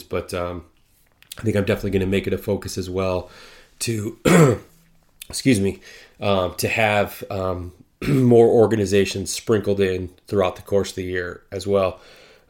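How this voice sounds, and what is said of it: Hoarse, tired voice. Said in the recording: “I'm getting a bit hoarse.”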